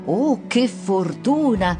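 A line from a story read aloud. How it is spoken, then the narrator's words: Plain. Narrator (Italian): disse la madre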